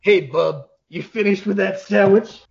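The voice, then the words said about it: Gruff comic-book hero voice impression. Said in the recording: “best Wolverine impression, the voice we hear when we read the comics”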